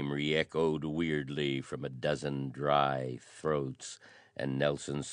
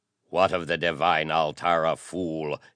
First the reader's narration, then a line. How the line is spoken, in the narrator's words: he thundered in a dreadful, shaken monotone